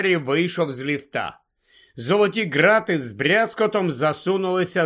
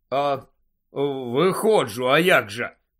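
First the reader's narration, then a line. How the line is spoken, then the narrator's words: Low voice. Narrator (Ukrainian): відповів Гаррі низьким голосом Ранкорна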